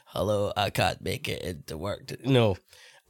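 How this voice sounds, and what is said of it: Put-on sick-sounding voice. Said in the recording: “let me use my sick voice for a minute ... Why does your voice sound funny then?”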